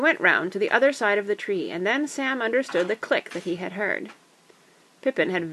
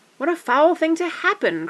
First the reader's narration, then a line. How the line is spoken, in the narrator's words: cried Frodo wildly